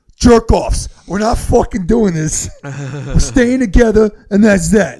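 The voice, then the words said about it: Imitated voice with Brooklyn accent. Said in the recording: “He's got a Brooklyn accent.”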